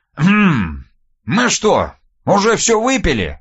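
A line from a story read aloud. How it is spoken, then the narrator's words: Casual surprise. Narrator (Russian): Мимоходом удивился Никита Силыч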